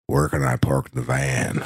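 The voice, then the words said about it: Good impression of a man. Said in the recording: “That's a good impression, too. I think that's exactly what he sounds like.”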